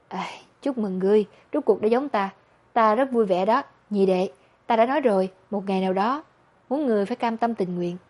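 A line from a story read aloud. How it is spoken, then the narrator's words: Deliberate sorrowful sigh. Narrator (Vietnamese): Nhiếp Cảnh, trong lòng đau xót, cố tình thở dài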